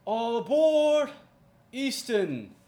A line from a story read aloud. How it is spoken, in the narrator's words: He yells out